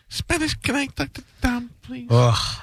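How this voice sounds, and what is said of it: Imitating a caller's speech cadence. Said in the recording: “I can't do her voice, but I can do her cadence, the way she talks.”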